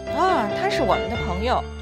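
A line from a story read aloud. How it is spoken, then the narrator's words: Laughing. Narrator (Chinese): 米兰达笑着说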